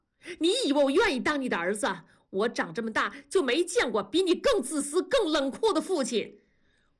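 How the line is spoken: Sudden yell. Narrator (Chinese): 大宝突然的吼叫

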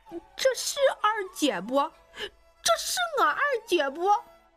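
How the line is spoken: Loud wailing sobs. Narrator (Chinese): 又是一场嚎啕大哭

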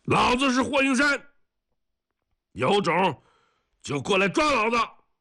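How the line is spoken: Yelling at full voice. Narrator (Chinese): 两个人扯着嗓子喊

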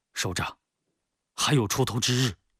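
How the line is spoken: Light sigh. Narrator (Chinese): 龙坤浅叹

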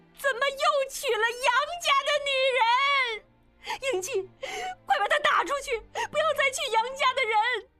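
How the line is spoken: Shouting. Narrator (Chinese): 冲着众人大叫

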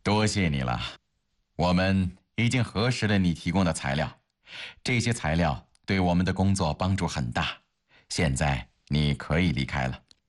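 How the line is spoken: Calm, smiling. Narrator (Chinese): 吕传国没有生气，反而笑眯眯的

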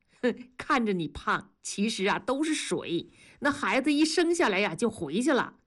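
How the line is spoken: Laughing. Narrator (Chinese): 庄嫂笑着说

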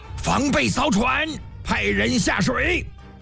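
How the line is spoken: Loud shout. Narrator (Chinese): 赵成大喊一声

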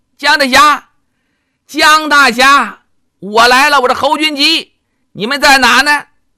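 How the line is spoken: Shouting, calling out. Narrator (Chinese): 一边看一边喊

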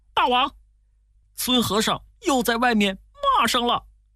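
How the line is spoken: Hurried report. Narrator (Chinese): 几个小妖…急忙跑进去报告

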